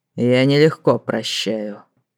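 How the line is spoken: Growled. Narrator (Russian): прорычал маг

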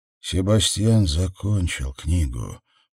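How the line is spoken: Whisper. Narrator (Russian): прошептал Сэм

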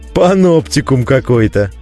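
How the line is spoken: Cheerful laughter. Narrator (Russian): весело рассмеялся я

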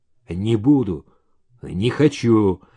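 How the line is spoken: Grumbling. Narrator (Russian): буркнул Саша

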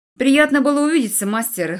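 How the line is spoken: Scoffing grunt. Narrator (Russian): хмыкнул лорд Тирейн

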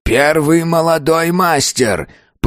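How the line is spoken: Hoarse rasp. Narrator (Russian): прохрипел

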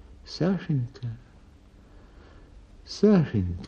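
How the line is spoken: Sad. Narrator (Russian): говорит она печально

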